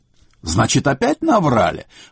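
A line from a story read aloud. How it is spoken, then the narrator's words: Exclamation. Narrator (Russian): воскликнул сеньор Бартоломео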